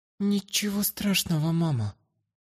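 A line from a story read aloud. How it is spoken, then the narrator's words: Quiet reply. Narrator (Russian): тихо ответила Астра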